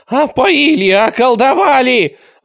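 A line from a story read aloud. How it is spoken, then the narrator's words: Miserable yelling. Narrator (Russian): орал несчастный Радищев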